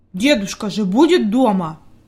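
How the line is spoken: Angry grumble. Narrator (Russian): буркнул Питер сердито

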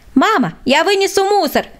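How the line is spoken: Shout. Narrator (Russian): крикнул Владик

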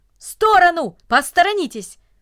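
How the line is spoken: Brisk urgent shout. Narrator (Russian): Деловито, как будто у него было какое-то срочное дело, закричал

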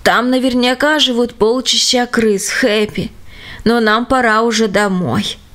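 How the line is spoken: Weary. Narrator (Russian): сказал устало почтальон

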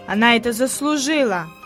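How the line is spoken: Muttered. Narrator (Russian): пробурчал Питер

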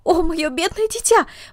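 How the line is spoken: Exclamation. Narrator (Russian): воскликнула она

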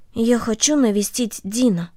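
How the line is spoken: Quiet speech. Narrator (Russian): Корнели тихо сказала

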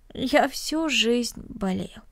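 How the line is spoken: Sad, smiling. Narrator (Russian): печально улыбнулся Денис

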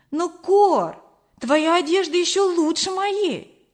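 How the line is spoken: Exclaimed. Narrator (Russian): воскликнула я

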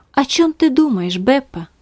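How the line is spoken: Plain question. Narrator (Russian): спросила Магдалина

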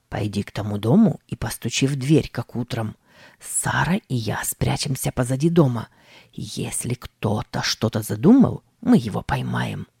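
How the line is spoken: Whispered command. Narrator (Russian): Тим шепотом скомандовал

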